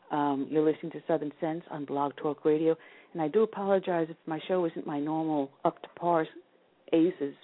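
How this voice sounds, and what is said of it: Sick voice with sore throat. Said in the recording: “I'm a little under the weather today, as you can hear with my voice ... my voice sounds much sexier ... I'm starting to get a really bad sore throat”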